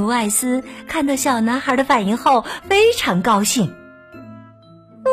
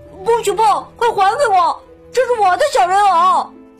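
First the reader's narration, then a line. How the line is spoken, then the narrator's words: Child crying out. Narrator (Chinese): 小男孩立刻叫了起来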